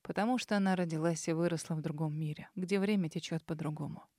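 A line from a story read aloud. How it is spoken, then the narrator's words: Quiet, lost in memories. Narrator (Russian): негромко произнес принц, уставившись перед собой невидящим взглядом и погрузившись в воспоминания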